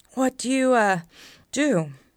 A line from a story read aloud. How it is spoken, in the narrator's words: panted